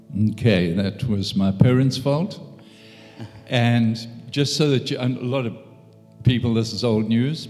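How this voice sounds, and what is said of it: South African accent. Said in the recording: “what's with the accent? ... born in South Africa”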